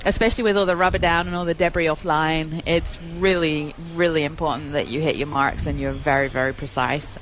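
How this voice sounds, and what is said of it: English accent. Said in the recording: “You can tell I'm not American because of the accent. ... From England.”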